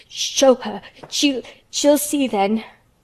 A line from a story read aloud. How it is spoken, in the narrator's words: he gasped out between two sobs